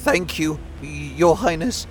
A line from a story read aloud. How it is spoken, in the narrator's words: said in a trembling voice